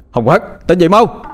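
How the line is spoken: Shout. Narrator (Vietnamese): Anh hét lên

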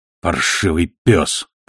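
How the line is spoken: Mutter. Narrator (Russian): пробормотал Ноул, обращаясь к мертвецу

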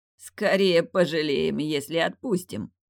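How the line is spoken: Sadistic chuckle. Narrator (Russian): Снова хохотнул садист

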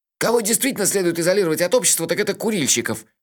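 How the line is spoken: Snapping back. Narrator (Russian): огрызнулся Мелифара

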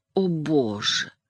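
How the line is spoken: Whispered repetition. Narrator (Russian): шепотом повторила

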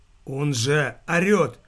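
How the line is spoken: Strained after long silence. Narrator (Russian): После молчания, продолжавшегося не менее 5 минут, выдавил могильщик

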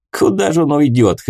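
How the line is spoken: Chuckling. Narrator (Russian): хохотнул Руди

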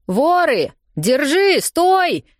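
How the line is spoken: Distant shouting. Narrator (Russian): кричал кто-то в дальнем конце зала

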